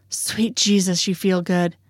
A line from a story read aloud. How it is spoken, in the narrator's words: he groans